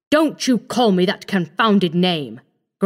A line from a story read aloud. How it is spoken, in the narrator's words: growled MacFarlane